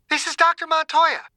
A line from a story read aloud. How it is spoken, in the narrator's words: she shouted